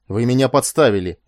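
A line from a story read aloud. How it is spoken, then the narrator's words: Roaring. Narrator (Russian): взревел Этан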